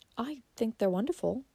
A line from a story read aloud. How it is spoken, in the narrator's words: said Valancy timidly